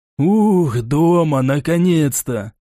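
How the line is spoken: Relieved exhale. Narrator (Russian): Выдохнул Лисовский

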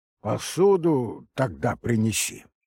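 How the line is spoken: Stern. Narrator (Russian): все так же строго сказала она

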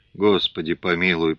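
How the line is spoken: Frightened mutter, receding. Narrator (Russian): пробормотал перепуганный голос, удаляясь от двери

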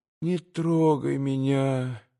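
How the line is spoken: Pleading babble. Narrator (Russian): молящим голосом прилепетала она ему

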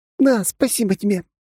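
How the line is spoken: Happy, smiling. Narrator (Russian): радостно улыбнулась она

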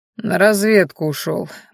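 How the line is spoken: Grim reply. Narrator (Russian): мрачно ответил Дагрен

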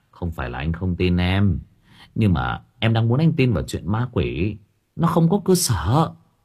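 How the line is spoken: Sighing. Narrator (Vietnamese): Bình thở dài

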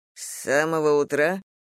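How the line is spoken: Muttered. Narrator (Russian): пробормотал он

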